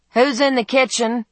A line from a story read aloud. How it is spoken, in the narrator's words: called out